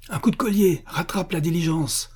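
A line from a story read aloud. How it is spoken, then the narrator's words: Excited shout. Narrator (French): cria le prince, électrisé par cette sorte de steeplechase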